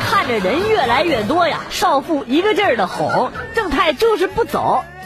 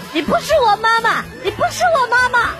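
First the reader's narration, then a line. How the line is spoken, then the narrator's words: Child shouting loudly. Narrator (Chinese): 小正太嘴里大声叫着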